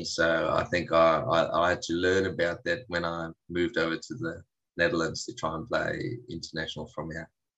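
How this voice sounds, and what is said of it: South African accent. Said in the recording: “we can detect a South African accent”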